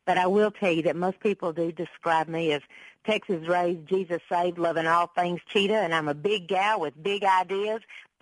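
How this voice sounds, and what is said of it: Southern American accent. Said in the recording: “I know that you can hear that southern accent in my voice”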